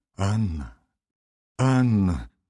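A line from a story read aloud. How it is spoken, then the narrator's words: Trembling voice. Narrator (Russian): говорил он дрожащим голосом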